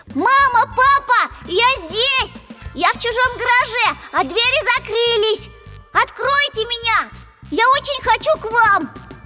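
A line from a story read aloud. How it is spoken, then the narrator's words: Tractor shouting even louder. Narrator (Russian): И синий трактор закричал еще громче, чем раньше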